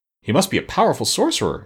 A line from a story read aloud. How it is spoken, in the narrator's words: exclaimed the Tin Woodman